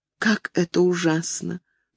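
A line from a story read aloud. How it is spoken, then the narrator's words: Whispered. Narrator (Russian): прошептала она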